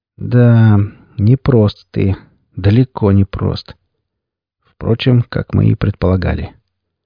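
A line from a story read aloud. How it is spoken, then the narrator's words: Quiet, sly. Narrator (Russian): хитро улыбнувшись, сталкер тихо произнес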